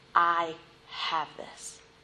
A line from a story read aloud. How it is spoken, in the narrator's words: him whisper